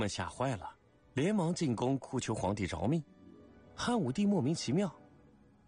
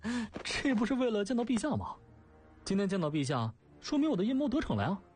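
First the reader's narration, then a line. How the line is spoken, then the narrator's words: Laughing. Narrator (Chinese): 东方朔笑对皇帝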